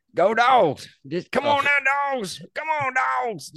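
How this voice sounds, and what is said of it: Shouting in an exaggerated accent. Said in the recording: “we were screaming just in probably the most offensive sort of accents ever”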